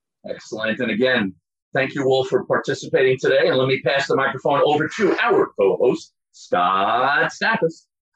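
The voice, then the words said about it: Polished radio announcer voice. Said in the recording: “radio voice”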